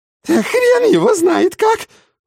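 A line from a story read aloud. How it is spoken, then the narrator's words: Shrill squeal. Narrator (Russian): взвизгнул Хреноплет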